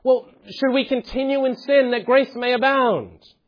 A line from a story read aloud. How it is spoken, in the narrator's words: this imaginary dialogue partner suddenly blurts out